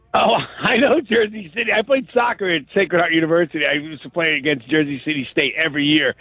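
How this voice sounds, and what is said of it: East Coast American accent. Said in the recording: “we have that East Coast accent”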